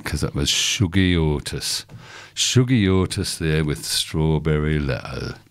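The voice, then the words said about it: Put-on Northern British accent. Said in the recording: “I'm going to say this in a Northern British accent”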